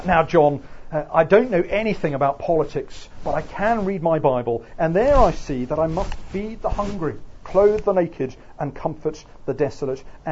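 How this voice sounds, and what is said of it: Put-on Oxford English accent. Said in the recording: “I can't do Ohio accent. This is Oxford accent.”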